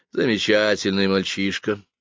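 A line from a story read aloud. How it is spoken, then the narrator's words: Disappointed sigh. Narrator (Russian): разочарованно вздохнул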